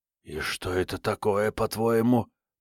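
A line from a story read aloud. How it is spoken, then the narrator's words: Whispered. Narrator (Russian): прошептал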